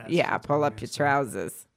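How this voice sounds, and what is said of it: Put-on accent. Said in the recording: “I don't know why I had to say it with that accent”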